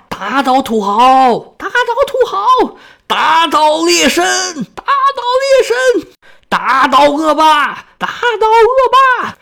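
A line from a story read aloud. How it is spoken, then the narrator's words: Chanting slogans. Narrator (Chinese): 一边走一边喊口号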